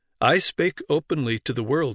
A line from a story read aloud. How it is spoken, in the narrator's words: he answered